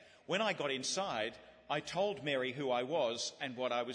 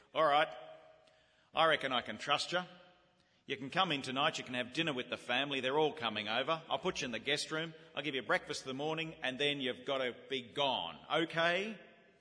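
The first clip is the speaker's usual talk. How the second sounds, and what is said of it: Very broad Australian accent. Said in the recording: “in her very broad Australian accent, she said”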